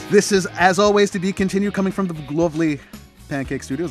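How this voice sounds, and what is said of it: Announcer-style radio voice. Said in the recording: “I'm having fun with my radio voice.”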